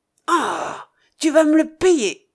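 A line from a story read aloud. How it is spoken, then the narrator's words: Exclaiming. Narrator (French): s'écria Carker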